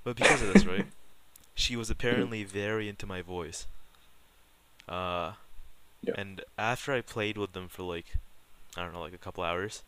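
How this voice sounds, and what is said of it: Deep, soothing male voice. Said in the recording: “I did not know I had a particularly deep voice, but apparently I do ... it is, bro. It's pretty good. It's pretty soothing”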